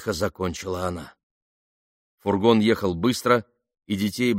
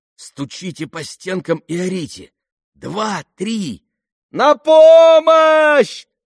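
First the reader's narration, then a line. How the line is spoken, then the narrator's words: Group shouting. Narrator (Russian): закричали они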